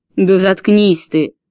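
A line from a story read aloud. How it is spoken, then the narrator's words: Roaring husband. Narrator (Russian): взревел ее муж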